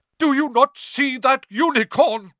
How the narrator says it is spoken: Firenze bellowed at Bane

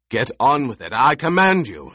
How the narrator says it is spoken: the Baron roared

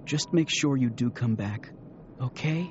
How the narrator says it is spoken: She whispered close to his ear

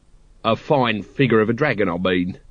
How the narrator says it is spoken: he said quickly

